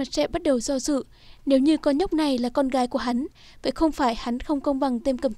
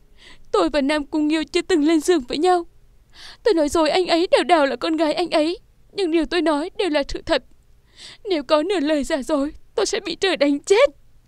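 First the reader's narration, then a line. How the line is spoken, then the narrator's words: Choked, tearful. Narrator (Vietnamese): Nam Cung Vũ Nhi ướt đẫm nước mắt, nghẹn ngào nói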